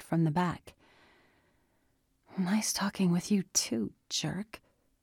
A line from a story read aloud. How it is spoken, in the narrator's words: Andy mumbled